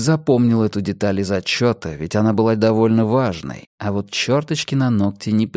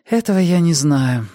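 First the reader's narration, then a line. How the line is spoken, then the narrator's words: Sighing. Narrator (Russian): вздохнула Мия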